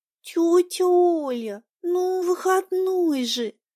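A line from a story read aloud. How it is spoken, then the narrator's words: Moaning niece. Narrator (Russian): простонала племянница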